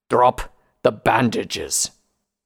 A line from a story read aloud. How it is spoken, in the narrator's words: Redbrand growled